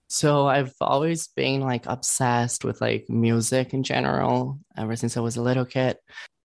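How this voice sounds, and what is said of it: Foreign accent. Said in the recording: “I could just kind of tell by the accent that you might be maybe from another country.”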